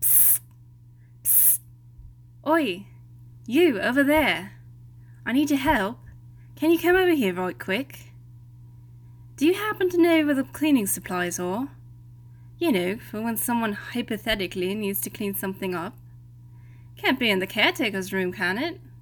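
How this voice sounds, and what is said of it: Terrible put-on British accent. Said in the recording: “a terrible British accent”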